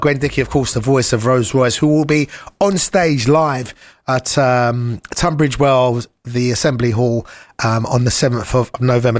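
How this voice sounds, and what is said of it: Battered voice, sore throat. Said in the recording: “my voice is absolutely battered from the weekend and I had a bit of a sore throat”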